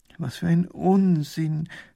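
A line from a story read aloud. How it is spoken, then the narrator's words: Groaning. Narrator (German): stöhnt Professor Pfiffikus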